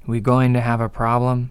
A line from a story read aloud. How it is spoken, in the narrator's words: Rachel called out